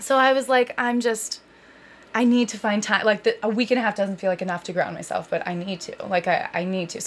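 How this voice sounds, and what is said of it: Tired, overwhelmed-sounding voice. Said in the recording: “I'm clearly, you can probably hear it in my voice, I'm still a little overwhelmed”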